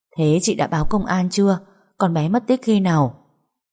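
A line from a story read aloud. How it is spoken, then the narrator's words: Sighing. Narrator (Vietnamese): Hồng thở dài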